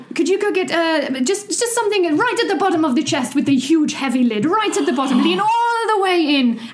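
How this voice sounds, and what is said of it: Put-on French-German accent. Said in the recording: “she's French ... She's also a little bit German ... which is why her accent might alter.”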